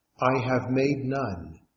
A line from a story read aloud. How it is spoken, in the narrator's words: replied the master